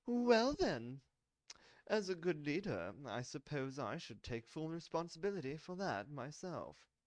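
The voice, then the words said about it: Character voice with an accent. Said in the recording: “the man with the accent said.”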